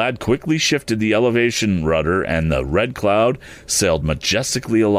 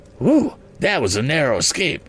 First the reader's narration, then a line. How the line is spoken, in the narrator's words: exclaimed Mr